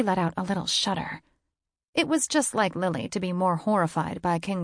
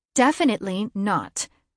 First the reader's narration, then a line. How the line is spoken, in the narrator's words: Lily said in her firm, oldest sister voice